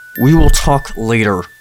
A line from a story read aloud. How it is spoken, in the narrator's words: James said through gritted teeth